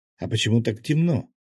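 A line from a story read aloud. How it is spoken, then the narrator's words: Shouted over shoulder. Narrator (Russian): крикнула через плечо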